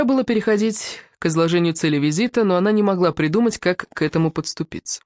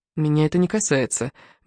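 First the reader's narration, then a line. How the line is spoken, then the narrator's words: Gentle interruption. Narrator (Russian): мягко остановила его Диана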